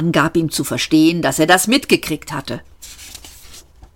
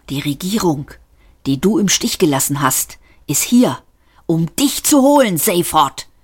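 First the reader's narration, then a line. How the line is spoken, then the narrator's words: Man hissing. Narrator (German): zischte der Mann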